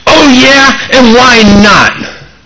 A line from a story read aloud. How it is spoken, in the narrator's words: the driver glared back and screamed